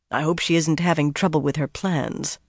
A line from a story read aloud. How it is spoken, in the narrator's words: muttered